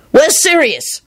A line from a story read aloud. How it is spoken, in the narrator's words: Lupin shouted